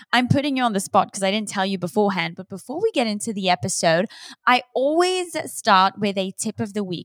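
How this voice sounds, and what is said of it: Mixed, hard-to-place accent. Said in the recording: “The accent helps... my accent is very confused”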